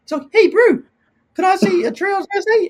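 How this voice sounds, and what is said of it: Put-on New Zealand accent. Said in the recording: “My New Zealand accent's not very good”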